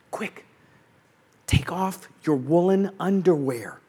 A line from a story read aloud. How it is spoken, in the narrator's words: I whispered to her